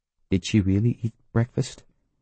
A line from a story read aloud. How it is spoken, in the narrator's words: He whispered too